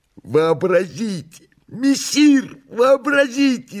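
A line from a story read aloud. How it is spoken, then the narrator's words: Excited joyful shout. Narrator (Russian): закричал возбужденный радостно Бегемот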